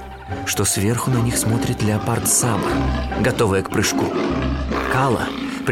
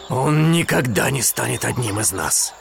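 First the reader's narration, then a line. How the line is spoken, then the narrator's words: Growling. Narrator (Russian): прорычал он Кале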